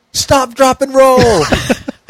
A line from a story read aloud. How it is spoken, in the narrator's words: Truth looks over at Elena and yells